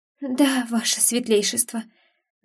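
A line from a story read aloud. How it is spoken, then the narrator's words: Trembling voice. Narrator (Russian): дрожащим голосом проговорила Сана Миури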